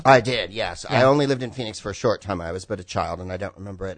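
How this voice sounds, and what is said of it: Californian Bay Area accent. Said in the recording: “what your accent is ... California. ... it is a little Spicoli, a little ... Reeves ... That's a Bay Area accent.”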